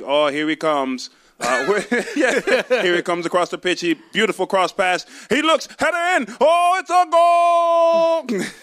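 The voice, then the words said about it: Put-on British accent, football commentary. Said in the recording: “That was a British accent ... I'm terrible at accents ... He tried.”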